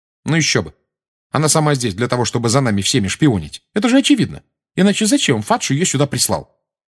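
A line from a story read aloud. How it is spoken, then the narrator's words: Sharp tone. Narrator (Russian): резким тоном сказала Гермиона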